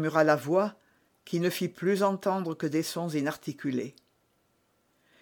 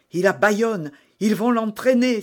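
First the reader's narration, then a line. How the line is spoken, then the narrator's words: Exclaiming. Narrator (French): s'écria d'Artagnan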